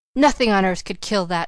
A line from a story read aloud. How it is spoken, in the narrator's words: she cried